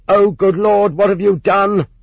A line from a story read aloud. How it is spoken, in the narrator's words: someone in the hall shouted at the members of the court